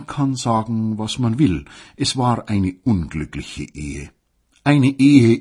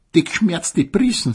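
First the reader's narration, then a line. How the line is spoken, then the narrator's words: Mocking. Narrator (German): sagte die Selchwurst höhnisch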